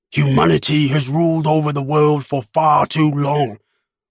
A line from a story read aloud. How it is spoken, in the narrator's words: grunted